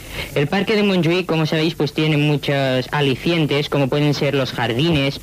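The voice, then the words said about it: Spanish with a Catalan accent. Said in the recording (Catalan): “Aquest accent català, eh? Aquest accent inconfusible d'una persona catalanoparlant que domina perfectament el castellà ... Es nota ... Se li nota molt ... aquest accent catalanitzat en el castellà”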